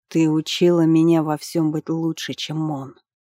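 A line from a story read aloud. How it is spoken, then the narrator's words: Through gritted teeth. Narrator (Russian): сквозь зубы сказал царевич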